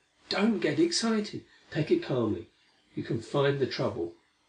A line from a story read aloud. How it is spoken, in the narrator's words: pleaded Larry